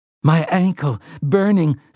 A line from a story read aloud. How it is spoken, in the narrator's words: Frank Tavery gasped